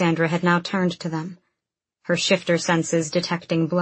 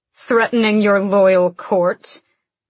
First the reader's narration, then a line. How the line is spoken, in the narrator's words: sneered a cold voice